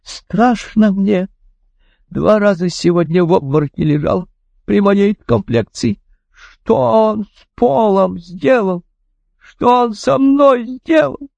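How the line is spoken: Sobbing woman. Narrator (Russian): добрая женщина зарыдала

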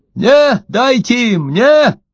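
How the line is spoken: Shouting from the door. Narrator (Russian): кричал от двери Ложкин

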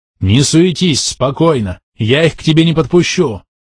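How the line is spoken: Shouting. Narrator (Russian): прокричал я

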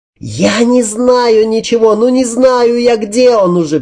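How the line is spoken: Hopeless shout. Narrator (Russian): Без какой-либо надежды крикнул я

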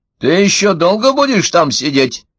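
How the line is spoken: Shout from another room. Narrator (Russian): крикнула из кухни Ванда

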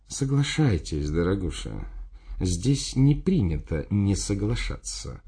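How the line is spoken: Tender speech. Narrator (Russian): нежно сказал

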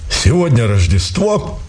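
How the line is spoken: Colonel's solemn declaration. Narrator (Russian): торжественно заявил полковник

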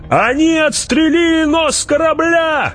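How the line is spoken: Shouted. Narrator (Russian): крикнул кто-то

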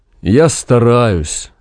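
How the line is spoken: Sad. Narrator (Russian): грустно сказал Максим

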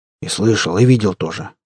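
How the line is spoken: Muttering under breath. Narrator (Russian): буркнул под нос Захар

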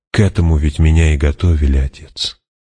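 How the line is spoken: Gentle. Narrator (Russian): мягко сказала

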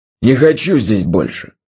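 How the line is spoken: Growled. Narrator (Russian): зарычал он

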